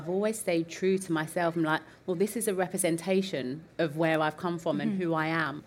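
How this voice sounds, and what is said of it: East End London accent. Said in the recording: “I'm from the East End of London... the comments that I was getting about my accent”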